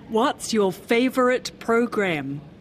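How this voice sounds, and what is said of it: Put-on American accent. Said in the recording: “You had to try to speak US English. ... That was my best American accent.”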